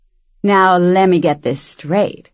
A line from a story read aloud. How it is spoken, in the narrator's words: she said, in a throaty, nasal voice